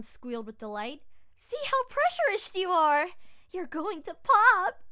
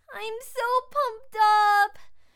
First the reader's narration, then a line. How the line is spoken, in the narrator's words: She whined